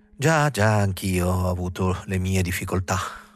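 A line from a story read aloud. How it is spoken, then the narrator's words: Almost calm tone. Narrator (Italian): Il consigliere disse in tono quasi tranquillo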